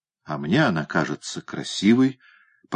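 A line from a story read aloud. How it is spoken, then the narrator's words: Muttered. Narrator (Russian): пробормотал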